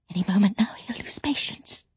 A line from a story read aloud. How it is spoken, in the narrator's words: she whispered